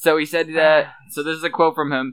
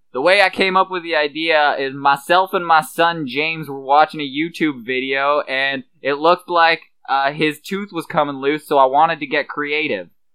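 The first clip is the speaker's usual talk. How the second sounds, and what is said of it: Put-on redneck accent. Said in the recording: “I love how you read that in like a fucking redneck accent, too.”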